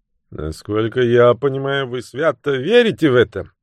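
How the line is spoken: Sarcastic remark. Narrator (Russian): язвительно заметил Фицвильям

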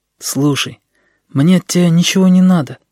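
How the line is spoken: Almost plaintive. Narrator (Russian): сказал он почти жалобно

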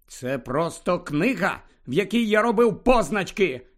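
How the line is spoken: Shout. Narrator (Ukrainian): крикнув Гаррі

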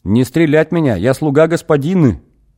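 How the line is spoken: Cheerful yell. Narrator (Russian): Бодро заорал Горец

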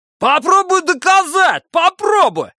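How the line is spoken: Yelling. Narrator (Russian): заорал Бадди

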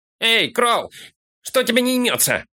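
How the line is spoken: Shout. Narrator (Russian): крикнул Фолка караульщику

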